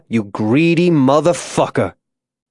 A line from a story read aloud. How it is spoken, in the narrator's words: Isaiah said, his voice rising